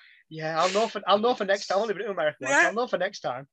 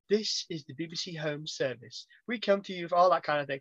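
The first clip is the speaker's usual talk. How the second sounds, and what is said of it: Put-on old BBC announcer accent. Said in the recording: “the only accent I can really kind of half do is the whole ... the made up that nobody actually talks”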